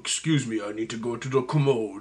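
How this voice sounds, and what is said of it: Imitates another person's voice. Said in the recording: “my Sean Connery impression”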